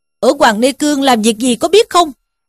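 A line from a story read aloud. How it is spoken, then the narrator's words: Shouted question. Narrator (Vietnamese): quát hỏi rằng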